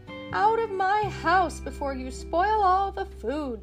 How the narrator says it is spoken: the woman cried

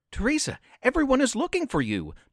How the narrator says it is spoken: Donnie pleaded

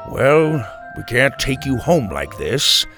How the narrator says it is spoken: he sighed

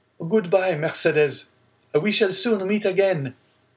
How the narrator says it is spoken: he called out

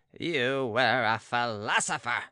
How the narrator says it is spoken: sneered the baron

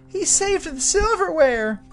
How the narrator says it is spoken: cried mother

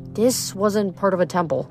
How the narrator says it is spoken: she whispered

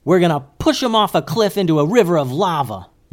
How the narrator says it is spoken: yelled Goose

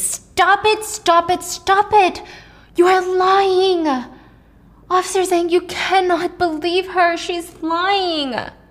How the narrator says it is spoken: Henry screamed

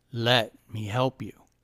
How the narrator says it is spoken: said the old man in a clear, deep voice

